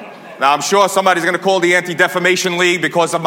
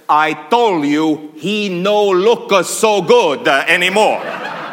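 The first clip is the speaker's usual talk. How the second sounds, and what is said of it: Put-on Italian accent. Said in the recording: “old Italian farmer ... my accent. ... that was what my grandfather sounded like”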